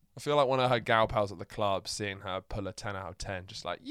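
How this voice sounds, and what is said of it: Posh English accent. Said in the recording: “as you can tell by my accent, they sounded like this or worse ... posh”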